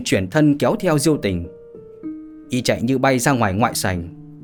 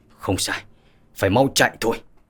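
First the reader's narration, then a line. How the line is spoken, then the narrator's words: Muttering. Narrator (Vietnamese): Diêu Giang Hàn lẩm bẩm nói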